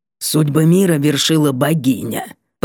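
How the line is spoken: Sudden creaky voice. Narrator (Russian): проскрипела вдруг Карифа

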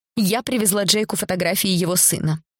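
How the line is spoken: Dry, curt. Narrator (Russian): сухо проговорила Зара

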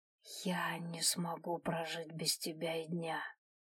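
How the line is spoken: Whispered. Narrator (Russian): прошептал

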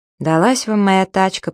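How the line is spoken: Grumbling. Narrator (Russian): проворчала

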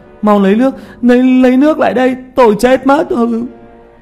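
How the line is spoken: Desperate screaming. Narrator (Vietnamese): Tiểu Mã kêu gào mà hét

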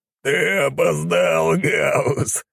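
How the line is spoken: Laughing. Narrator (Russian): рассмеялся волк

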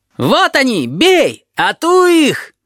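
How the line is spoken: Boys shrieking. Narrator (Russian): Визжали мальчишки

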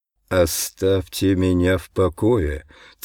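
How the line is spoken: Hateful, through gritted teeth. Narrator (Russian): цежу я сквозь зубы от ненависти

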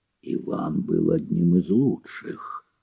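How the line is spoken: Hoarse wheeze. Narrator (Russian): просипел Мефодий

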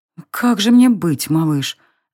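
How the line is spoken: Thoughtful murmur. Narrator (Russian): Задумчиво пробормотала она

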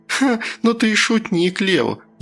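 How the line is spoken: Laughing. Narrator (Russian): засмеялась она

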